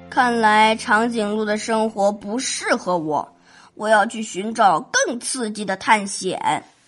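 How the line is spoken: Reflective sigh. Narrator (Chinese): 小猪 感叹

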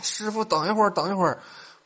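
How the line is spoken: Shouting while chasing. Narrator (Chinese): 咸菜哥 追着出租车喊

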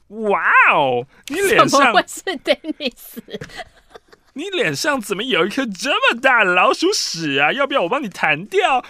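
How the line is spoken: Mocking, teasing. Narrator (Chinese): 开始取笑我，他说

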